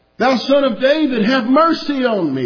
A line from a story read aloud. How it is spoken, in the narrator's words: he cried the more